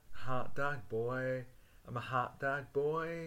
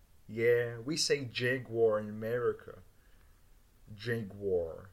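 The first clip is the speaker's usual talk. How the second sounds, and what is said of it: Poor attempt at American accent. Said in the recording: “I should do an American accent, but I can't do it ... I cannot do an American accent ... All I can do in American is”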